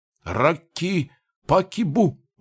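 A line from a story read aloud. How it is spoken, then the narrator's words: Sudden shout, fat man. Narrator (Russian): вдруг прокричал толстый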